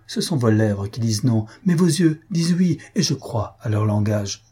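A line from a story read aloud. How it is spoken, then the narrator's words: Exclaim. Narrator (French): s'écria Mario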